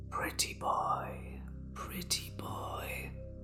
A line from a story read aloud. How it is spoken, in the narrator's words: a soft woman's voice whispering